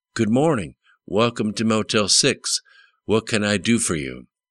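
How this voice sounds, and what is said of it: Mississippi drawl, young woman's voice. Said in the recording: “said in a Mississippi drawl”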